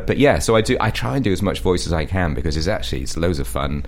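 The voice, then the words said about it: English accent from Shropshire. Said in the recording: “as you can probably tell from my accent, in the UK, in Shropshire”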